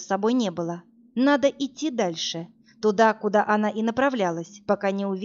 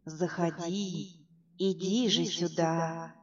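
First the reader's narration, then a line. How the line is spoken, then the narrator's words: Coaxing whisper. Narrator (Russian): нашептывал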